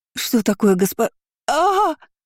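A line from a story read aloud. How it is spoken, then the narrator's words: Frightened wail. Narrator (Russian): заголосила служанка, испуганно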